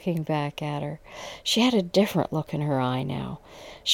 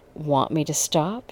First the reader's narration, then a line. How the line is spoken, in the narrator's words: asked, breathing heavy so it almost sounded like a growl